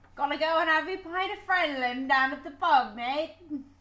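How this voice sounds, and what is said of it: Put-on British accent. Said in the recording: “I am not going to attempt a British accent.”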